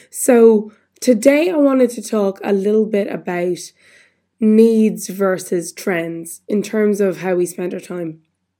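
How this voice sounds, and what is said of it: Voice still recovering, sounds off. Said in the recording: “I'm still sounding a bit funny, but nearly a week later, after losing my voice,”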